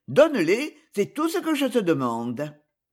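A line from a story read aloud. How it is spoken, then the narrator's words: Curt tone. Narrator (French): dit-elle d'un ton sec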